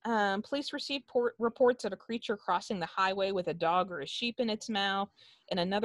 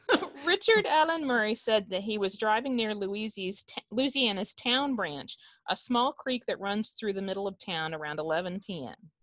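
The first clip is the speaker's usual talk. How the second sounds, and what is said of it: Put-on hillbilly accent. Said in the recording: “I'm going to try to do it in your best hillbilly accent.”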